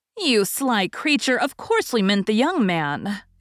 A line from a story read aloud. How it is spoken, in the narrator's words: exclaimed Miss Bell, laughing